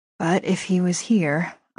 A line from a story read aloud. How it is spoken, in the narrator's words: I muttered to myself